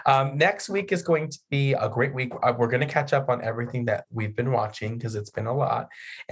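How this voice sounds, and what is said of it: Voice fading and giving out. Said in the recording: “My voice is slipping from me.”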